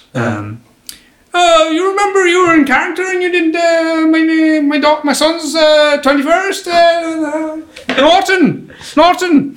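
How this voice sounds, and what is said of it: Imitated Irish accent. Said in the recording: “I'm going to fuck up his accent, but he was Irish.”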